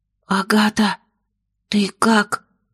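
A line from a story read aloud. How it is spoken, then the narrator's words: Whispered question. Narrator (Russian): шепотом спросил Ариэль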